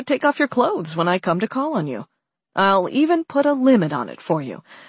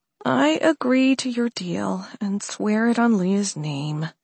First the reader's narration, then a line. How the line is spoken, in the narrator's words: she mumbled